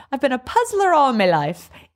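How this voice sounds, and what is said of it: Reading a line in a put-on accent. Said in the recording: “I said it with like an accent. ... You did say it with an accent. I loved how you slipped into that accent.”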